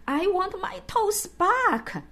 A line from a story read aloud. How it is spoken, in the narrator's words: I wailed